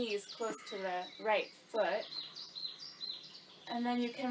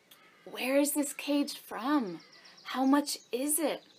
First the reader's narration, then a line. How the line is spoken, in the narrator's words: the woman inquired eagerly